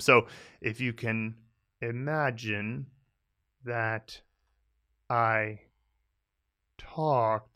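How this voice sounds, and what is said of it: Very slow speech. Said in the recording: “I'm talking so slowly”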